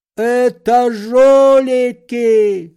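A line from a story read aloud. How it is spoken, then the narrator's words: Anguished shout. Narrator (Russian): закричал он страдальчески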